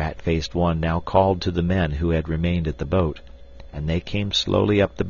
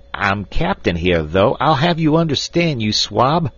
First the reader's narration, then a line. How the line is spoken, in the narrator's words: shrieked Snipes with a volley of frightful oaths